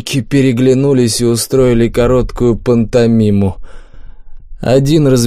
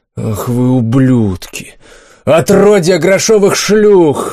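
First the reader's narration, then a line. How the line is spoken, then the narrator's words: Knight roaring. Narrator (Russian): взревел рыцарь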